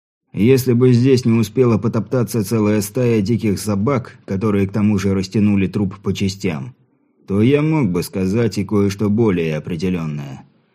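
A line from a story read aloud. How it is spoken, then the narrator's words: Calm. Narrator (Russian): спокойно ответил сержант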